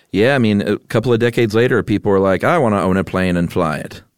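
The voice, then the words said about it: Put-on mid-Atlantic accent. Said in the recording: “that's how everybody talked that mid-Atlantic accent”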